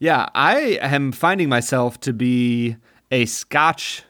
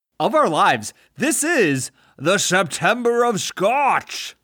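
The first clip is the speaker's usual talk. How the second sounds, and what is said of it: Sean Connery impression, Scottish accent. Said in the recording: “I loved the Sean Connery accent. ... Oh, it's beautiful. ... That was wonderful.”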